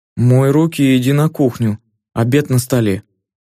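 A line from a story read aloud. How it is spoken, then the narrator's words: Cold. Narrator (Russian): холодно произнесла Вика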